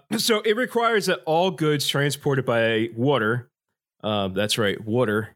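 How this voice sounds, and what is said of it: Usual voice. Nothing is said of it.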